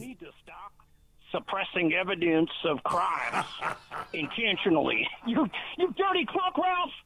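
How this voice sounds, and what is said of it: Bad Yosemite Sam cartoon accent. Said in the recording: “That was the worst accent I've ever heard in my life ... that was probably the worst Yosemite Sam accent”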